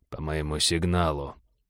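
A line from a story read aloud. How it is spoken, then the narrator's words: Quiet command. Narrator (Russian): негромко скомандовал Череп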